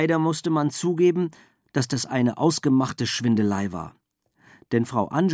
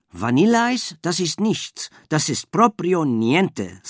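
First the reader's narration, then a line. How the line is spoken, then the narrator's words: Plain. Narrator (German): sagte sie immer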